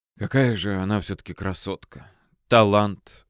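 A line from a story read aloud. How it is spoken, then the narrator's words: Sighing. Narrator (Russian): вздохнул стоявший рядом со мной Гоголь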